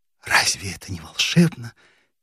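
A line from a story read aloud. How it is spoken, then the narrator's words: Quiet recitation. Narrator (Russian): тихо декламировала Нина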